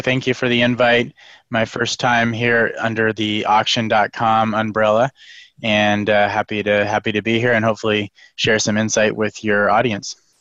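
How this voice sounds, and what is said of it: Voice slightly affected by a cold. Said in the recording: “I have a little bit of a cold here, so I apologize a second on a cough drop, but so I don't hack in everybody's ear”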